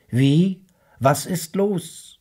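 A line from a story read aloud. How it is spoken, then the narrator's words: Called back. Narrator (German): rief zurück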